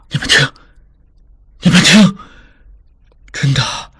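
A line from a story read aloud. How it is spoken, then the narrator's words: Soft voice. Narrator (Chinese): 智庸又轻声说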